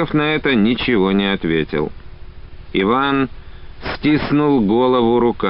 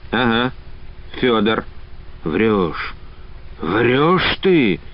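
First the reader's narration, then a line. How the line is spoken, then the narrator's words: Hoarse, voiceless. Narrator (Russian): хрипло без голоса произнес Иван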